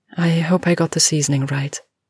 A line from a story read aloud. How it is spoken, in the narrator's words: said Jo nervously